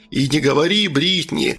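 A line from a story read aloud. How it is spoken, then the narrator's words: Chuckling laugh. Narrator (Russian): хохотнул Джон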